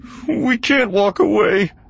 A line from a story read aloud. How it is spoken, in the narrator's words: the guard moaned